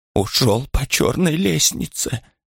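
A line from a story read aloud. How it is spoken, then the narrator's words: Almost whispered. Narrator (Russian): почти шепотом произнесла она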